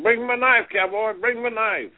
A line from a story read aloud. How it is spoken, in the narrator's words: he hollered at Cowboy and said